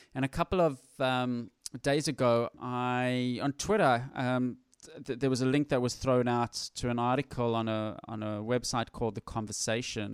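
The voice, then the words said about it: Faint South African accent. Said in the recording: “you might even be able to pick up from a little bit of the remnants of my accent ... I grew up and was born in Johannesburg, South Africa”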